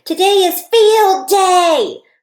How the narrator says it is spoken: I shouted to baby Ollie

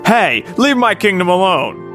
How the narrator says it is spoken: Boat yelled after Queen Zora

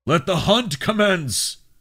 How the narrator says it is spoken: Darrow bellowed

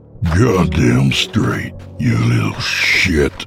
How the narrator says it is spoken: he growled, his voice returning to the previous gravelly voice

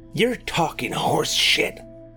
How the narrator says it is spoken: hissed Roy

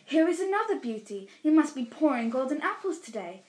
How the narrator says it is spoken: Atalanta cried

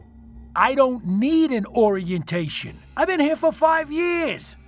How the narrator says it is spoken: I shouted defensively

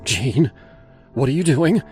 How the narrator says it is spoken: She asked, her voice sharp with fear

